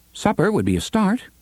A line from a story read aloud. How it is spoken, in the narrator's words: Cuthbert said brightly